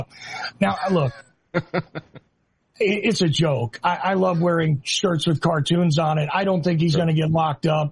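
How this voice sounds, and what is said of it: New York / New Jersey accent. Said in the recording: “you might be able to tell from my accent. I'm from that area of the country. Grew up in New York and New Jersey”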